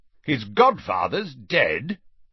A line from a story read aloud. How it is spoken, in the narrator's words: said Uncle Vernon loudly from the sofa